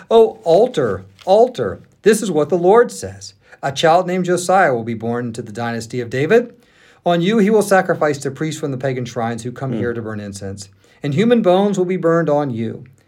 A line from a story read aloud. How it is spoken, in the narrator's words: at the Lord's command, he shouted